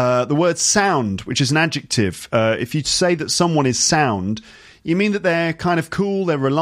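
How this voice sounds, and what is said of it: Usual voice. Nothing is said of it.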